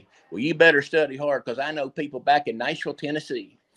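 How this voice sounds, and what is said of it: Put-on Southern US accent. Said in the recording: “A McCartney Southern accent.”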